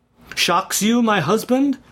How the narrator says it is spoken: cried Georgiana, deeply hurt, at first reddening with momentary anger, but then bursting into tears

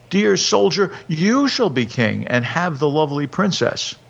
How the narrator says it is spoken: the people shouted

